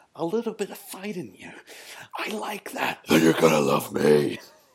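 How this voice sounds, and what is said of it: Joker character voice impression. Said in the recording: “I'm going to wheel out a Joker. I'm going to try and do it”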